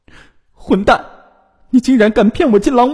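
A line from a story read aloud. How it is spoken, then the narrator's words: Crying, loud accusing. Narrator (Chinese): 他哭闹着，大声质问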